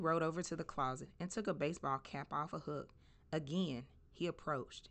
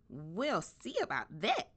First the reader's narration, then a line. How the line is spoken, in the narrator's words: squeaked